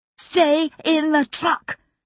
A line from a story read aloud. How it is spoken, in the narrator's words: she shouted